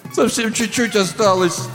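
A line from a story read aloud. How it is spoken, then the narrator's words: Whimpering. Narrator (Russian): захныкал он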